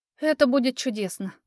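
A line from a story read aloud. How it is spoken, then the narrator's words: Sigh. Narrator (Russian): вздохнула я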